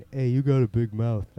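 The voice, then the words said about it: Imitates another person's voice. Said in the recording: “That's my Stallone impersonation. ... No, it's not bad.”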